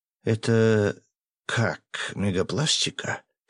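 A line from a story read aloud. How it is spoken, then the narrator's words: Hoarse mutter. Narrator (Russian): севшим голосом пробормотал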